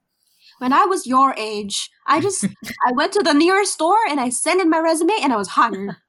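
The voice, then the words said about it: Imitates another person's voice. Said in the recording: “Let me do my best impression.”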